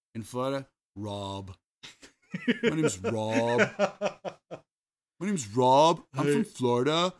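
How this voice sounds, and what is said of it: Put-on Florida accent. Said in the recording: “That's its own accent”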